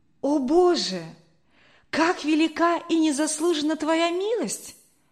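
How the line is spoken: Deeply moved exclamation. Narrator (Russian): воскликнул Генрих, глубоко тронутый

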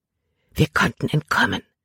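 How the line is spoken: Whispering. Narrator (German): flüsterte sie Caleb zu

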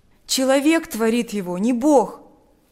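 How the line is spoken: Exclaiming. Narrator (Russian): воскликнул Миша

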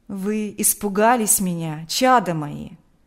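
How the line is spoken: Tender question. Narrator (Russian): ласково спросил он

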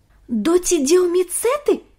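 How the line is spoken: Exclaimed. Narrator (Russian): воскликнул Ник

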